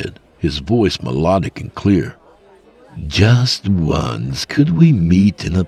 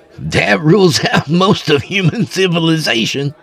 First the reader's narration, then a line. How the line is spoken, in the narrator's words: Rudy said with a laugh